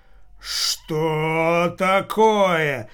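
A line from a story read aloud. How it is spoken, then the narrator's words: Deep bass voice. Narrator (Russian): густым басом произнес шулер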